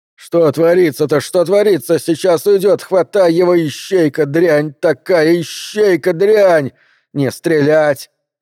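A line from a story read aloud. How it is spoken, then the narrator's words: Shouting. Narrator (Russian): закричала Бобби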